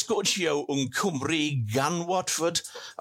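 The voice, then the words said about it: Attempted Welsh accent, sounding Merseyside. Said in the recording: “I went for a Welsh accent. It came out as sort of Merseyside.”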